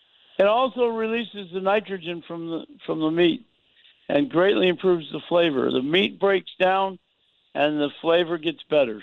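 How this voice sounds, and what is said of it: Raspy, rough voice. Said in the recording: “Sound a little raspy. ... coughing spell last night, and I guess it roughed up the throat a little bit.”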